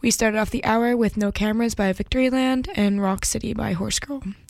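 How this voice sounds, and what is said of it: Groggy, tired, sluggish voice. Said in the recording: “As I'm sure you can hear in my voice, I am not feeling too hot today... I'm completely groggy and out of it... sluggish, and exhausted”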